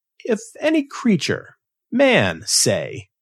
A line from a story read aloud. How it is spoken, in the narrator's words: laughing again